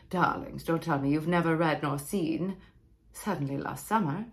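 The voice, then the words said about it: Put-on weird theatrical accent. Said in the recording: “it's a weird accent.”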